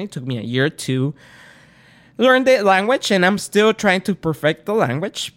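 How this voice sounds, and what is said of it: Latino Spanish-speaker accent. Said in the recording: “As you could tell, I'm Spanish. Not from Spain. I'm actually Latino. I speak Spanish. That's why you hear the accent.”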